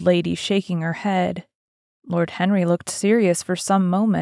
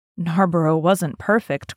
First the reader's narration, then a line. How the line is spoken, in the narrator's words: cried the old lady